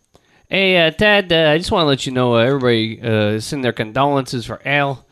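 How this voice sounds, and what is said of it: Put-on Chicago Midwest accent. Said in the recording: “I have like my Chicago accent down now ... the Midwest accent, I'm starting to really get down”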